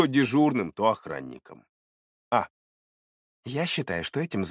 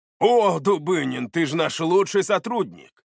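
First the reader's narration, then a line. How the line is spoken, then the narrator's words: Exclamation. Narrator (Russian): воскликнул начальник милиции города Усолье-Сибирское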